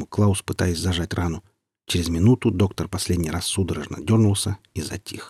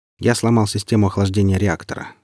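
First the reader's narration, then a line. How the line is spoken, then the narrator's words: Indifferent tone. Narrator (Russian): сообщил он Степану и сержанту удивительно безразличным тоном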